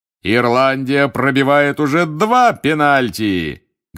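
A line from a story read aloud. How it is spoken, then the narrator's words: Bellowing. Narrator (Russian): гаркнул Бэгман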